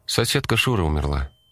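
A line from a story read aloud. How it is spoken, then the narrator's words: Sighing mother. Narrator (Russian): мама вздохнула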